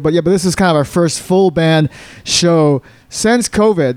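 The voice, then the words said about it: Hoarse, froggy voice. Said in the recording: “my voice sounds a little froggy today, it's because we played a show yesterday”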